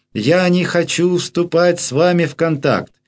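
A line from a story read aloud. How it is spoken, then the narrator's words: Loud. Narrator (Russian): Воодушевленная пациентка громко сказала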